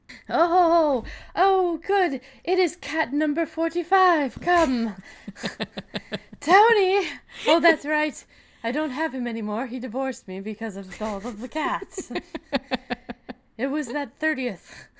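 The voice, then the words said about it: Weird proper old lady voice. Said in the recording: “I suddenly have a weird, proper old lady accent.”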